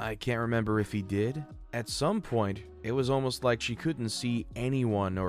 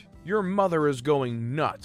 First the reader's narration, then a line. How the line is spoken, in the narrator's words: he exclaimed